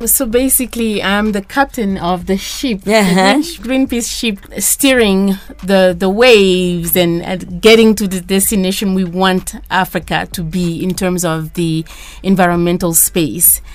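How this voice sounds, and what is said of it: Slight West African accent. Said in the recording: “you also have a bit of an accent ... I'm from Mali ... West Africa”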